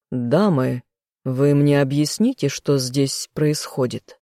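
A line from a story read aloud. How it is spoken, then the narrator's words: Stern indignant outburst. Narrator (Russian): Строго возмутился я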